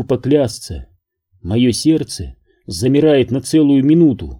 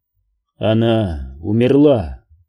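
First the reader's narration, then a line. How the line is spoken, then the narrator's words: Calm answer. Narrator (Russian): спокойно отвечает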